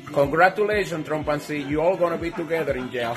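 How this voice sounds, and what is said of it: Thick heavy Spanish accent. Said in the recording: “this Spanish guy, I love that his accent's so thick ... a heavy accent”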